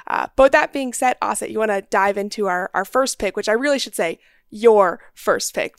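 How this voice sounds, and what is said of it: Raspy, sore-throated voice. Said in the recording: “I apologize in advance for my raspy voice. My throat's a little sore at the moment”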